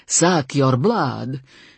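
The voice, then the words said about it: Put-on Romanian vampire accent. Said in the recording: “He put on a Romanian accent for the next three words.”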